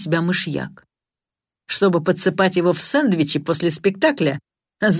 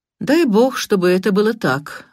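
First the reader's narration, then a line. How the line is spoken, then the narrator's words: Gloomy voice. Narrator (Russian): мрачно произнес Карри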